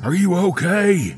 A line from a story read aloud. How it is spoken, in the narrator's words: he bellowed, still full of adrenaline